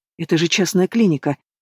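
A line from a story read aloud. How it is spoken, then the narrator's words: Whispering. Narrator (Russian): прошептала Алена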